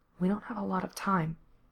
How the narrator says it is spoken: Gerard murmured back

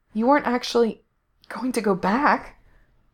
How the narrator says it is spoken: Gerard gasped out the question

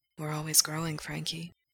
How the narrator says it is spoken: Gerard whispers

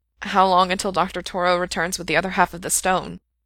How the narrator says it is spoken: Frank managed, his voice rough

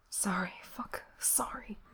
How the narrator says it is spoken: he whispered back

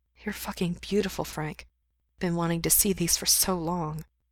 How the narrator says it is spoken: mumbles

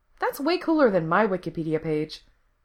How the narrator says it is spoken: Becky says

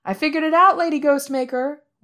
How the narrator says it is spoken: Wei Wuxian shouts over her

